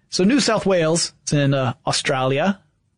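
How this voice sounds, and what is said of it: Put-on Australian accent, poorly done. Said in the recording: “that was a terrible accent... my Australian accent is amazing. It's almost as good as my New Zealand accent”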